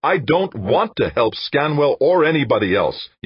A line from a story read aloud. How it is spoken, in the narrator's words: snapped